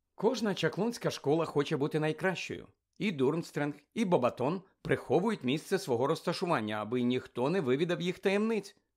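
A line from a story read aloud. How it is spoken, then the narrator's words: Matter-of-fact explaining. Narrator (Ukrainian): пояснила буденним тоном Герміона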